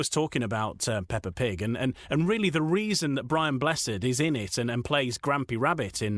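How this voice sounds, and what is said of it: Usual voice. Nothing is said of it.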